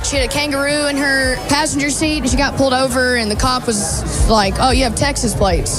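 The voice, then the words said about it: Broad American accent. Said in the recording (Dutch): “Heerlijk dat plat Amerikaanse accent”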